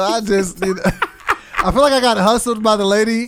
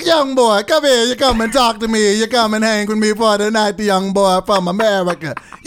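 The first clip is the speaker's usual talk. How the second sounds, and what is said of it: Bad put-on Jamaican accent. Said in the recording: “You have the worst Jamaican accent.”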